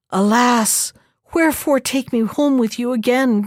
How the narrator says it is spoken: cried the young woman

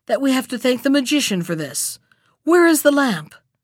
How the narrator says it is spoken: cried Aladdin

